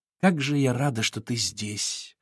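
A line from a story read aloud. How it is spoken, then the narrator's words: Sighed. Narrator (Russian): вздохнула она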